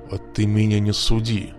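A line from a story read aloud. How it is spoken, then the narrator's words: Hiss. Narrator (Russian): прошипел он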